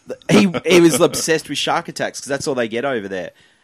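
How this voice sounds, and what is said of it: Australian accent. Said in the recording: “heard my accent ... oh, you're from Australia”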